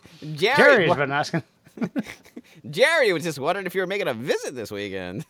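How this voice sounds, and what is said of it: Old-timey newsreader voice. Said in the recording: “you even do it in your old-timey news voice, too.”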